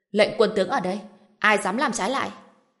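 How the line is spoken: Stern shout. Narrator (Vietnamese): Trần Bình nghiêm giọng nói, quát lên

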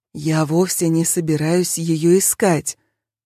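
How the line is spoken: Playful secretive whisper. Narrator (Russian): как бы по секрету шепнул нам доктор, но по искрам в его глазах я поняла, что в данном случае он все же больше шутит, чем говорит всерьез

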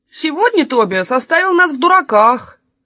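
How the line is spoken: Sulky grumbling crowd. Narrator (Russian): многие надулись и заворчали

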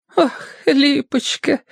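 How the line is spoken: Said with a sob. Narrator (Russian): сказала Софья Александровна и всхлипнула

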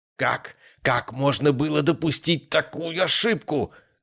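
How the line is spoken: Shouting. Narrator (Russian): кричал Ярослав Андреевич Громов

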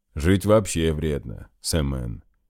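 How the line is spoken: Muffled chuckle. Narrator (Russian): Глухо хохотнул капитан

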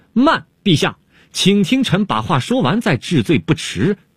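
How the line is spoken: Sudden shout. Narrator (Chinese): 东方朔忽然大叫了起来

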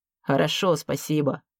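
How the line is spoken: Grumbled. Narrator (Russian): буркнул первый секретарь обкома

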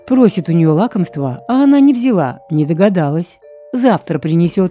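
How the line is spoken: Sharp shout at horse. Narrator (Russian): прикрикнул он на коня

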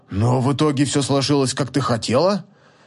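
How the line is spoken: Displeased grumble. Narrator (Russian): Недовольно проворчал Нол

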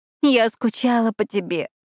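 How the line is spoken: Whimpering. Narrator (Russian): захныкала Надя

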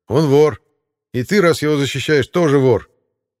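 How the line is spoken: Loud public shouting. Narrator (Russian): Эти двое кричали достаточно громко, чтобы их слова услышали все зеваки

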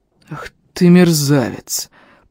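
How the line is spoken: Drawn-out exclamation. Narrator (Russian): Протянул он

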